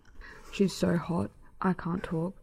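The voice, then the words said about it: Imitates another person's voice. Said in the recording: “see if you can guess who my impression is from the Maths cast... It's Rupert. Because he can't ever seem to speak.”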